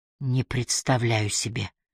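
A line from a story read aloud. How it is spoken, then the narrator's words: Mumbling. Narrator (Russian): пробормотала она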